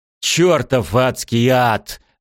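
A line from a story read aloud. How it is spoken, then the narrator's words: Yelling. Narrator (Russian): заорал Элфриш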